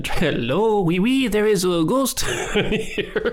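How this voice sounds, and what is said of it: Poor put-on French accent. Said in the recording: “That doesn't sound like French people.”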